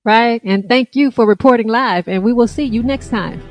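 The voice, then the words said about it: Announcer voice. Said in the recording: “That was my announcer voice.”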